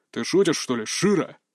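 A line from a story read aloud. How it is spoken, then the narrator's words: Irritated growl, big man. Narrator (Russian): раздраженно рыкнул здоровяк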